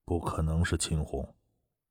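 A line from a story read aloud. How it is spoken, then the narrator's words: Low frowning voice. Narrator (Chinese): 精瘦男子眉头皱着，低声道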